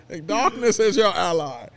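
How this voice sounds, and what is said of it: Imitation of Bane villain voice. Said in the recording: “your Bane impression”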